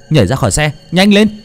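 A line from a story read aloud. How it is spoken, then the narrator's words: Urgent shout. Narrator (Vietnamese): Thành hét lên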